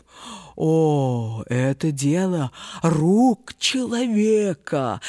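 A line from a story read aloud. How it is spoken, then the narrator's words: Wheezing in helpless rage. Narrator (Russian): в бессильной злобе прохрипел страдалец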